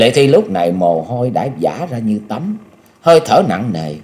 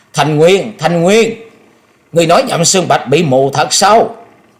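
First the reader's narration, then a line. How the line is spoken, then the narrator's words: Shrill high-pitched shout. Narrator (Vietnamese): cao giọng hét lên thè thé nói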